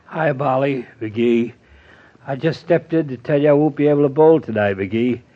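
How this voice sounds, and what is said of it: Congested, sick-sounding voice. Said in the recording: “you sound terrible, Doctor ... She says you sound awful.”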